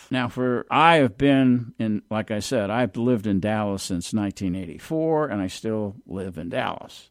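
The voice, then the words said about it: New Jersey accent. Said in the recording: “I have an accent that's really a New Jersey accent,”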